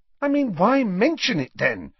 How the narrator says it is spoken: she said impatiently

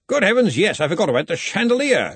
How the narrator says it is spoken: exclaimed Ridcully

